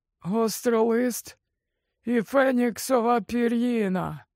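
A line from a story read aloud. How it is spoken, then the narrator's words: Trembling voice. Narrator (Ukrainian): промовляв Олівандер тремтливим голосом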